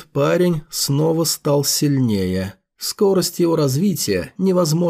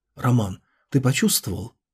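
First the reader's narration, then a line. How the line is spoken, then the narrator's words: Quiet question. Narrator (Russian): тихо спросила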